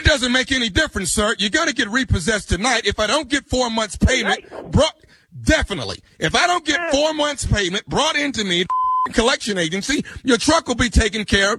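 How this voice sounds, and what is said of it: Screaming angrily over the phone. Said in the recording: “stop screaming at me over this phone”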